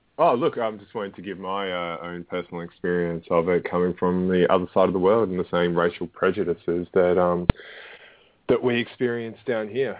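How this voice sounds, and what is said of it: Australian accent. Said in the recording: “obviously Australian given the accent.”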